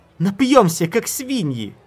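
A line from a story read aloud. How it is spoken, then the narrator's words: Delighted squealing. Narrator (Russian): Шрет и Лаор завизжали от восторга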